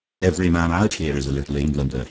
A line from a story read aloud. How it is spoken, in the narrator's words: he said